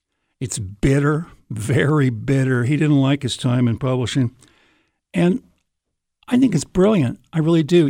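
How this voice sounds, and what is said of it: Slightly rough, hoarse voice. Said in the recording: “I've been getting over a little virus. That's why my voice sounds a little bit rough”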